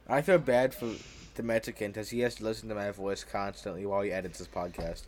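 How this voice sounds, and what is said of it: Speaks with a speech impediment. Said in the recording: “speaking of my voice, if you guys are wondering, I have a speech impediment... why he talks like this.”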